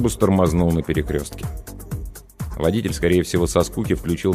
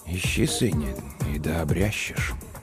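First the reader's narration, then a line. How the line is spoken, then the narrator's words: Very quiet, to himself. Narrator (Russian): Он ответил тихо-тихо, словно самому себе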